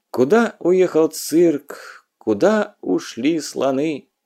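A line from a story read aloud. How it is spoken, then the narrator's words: Sad question. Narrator (Russian): Печально интересовалась она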